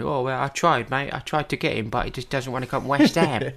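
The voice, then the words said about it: Put-on Cockney accent. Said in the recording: “that's my Cockney accent, by the way ... It wasn't as bad as I thought it was going to be ... it wasn't too bad.”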